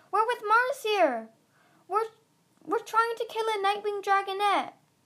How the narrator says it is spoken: Flame shouted

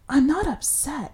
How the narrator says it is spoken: whispered

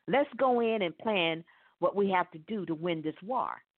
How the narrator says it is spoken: said

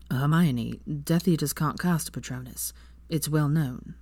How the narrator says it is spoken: Draco said calmly

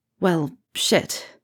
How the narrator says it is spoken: Harry muttered

